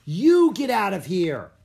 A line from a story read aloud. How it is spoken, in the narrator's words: yelled